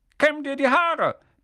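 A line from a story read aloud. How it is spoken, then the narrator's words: Barking. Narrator (German): bellte er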